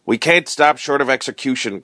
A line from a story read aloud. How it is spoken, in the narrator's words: cried his wife